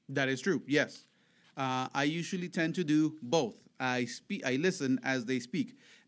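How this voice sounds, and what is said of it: Thick foreign accent. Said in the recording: “I have a thick accent. Sometimes I do pronounce words that are very hard to understand.”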